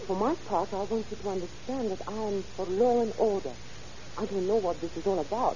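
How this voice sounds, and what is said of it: French accent. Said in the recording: “you have an accent. Are you a foreigner? ... My accent is French.”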